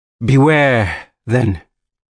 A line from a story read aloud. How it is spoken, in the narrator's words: she said ominously, her voice suddenly booming